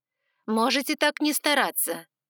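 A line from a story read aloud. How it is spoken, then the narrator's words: Irritated, curt. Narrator (Russian): Бросила я раздраженно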